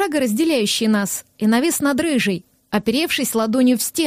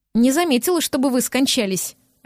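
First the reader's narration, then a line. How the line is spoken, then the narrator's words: Barked retort. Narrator (Russian): рявкнула она в ответ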